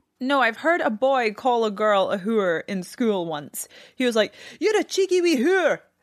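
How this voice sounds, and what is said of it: Speaks with a distinct accent. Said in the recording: “I could hear you talk all day in this accent.”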